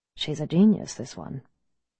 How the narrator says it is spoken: Mistress Coyle muttered into the pack

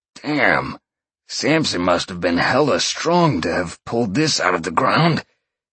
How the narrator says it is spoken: Sean grunted

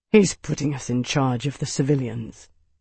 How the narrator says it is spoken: Tavi said quietly

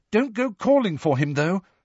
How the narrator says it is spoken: Hermione said urgently

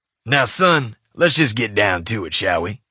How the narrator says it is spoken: he said in his raspy trucker voice

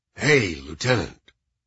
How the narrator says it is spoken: in a radio announcer voice

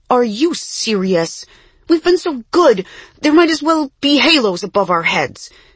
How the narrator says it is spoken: exclaimed Jessie

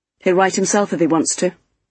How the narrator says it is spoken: I said coldly

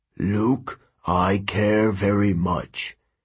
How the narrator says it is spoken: Hermes said slowly

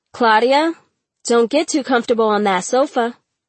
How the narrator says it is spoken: Ma hollered from the kitchen

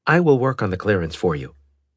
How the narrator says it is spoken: Galleon said

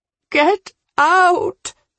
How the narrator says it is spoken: she cried

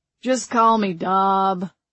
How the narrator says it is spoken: the man in the John Deere cap rumbled

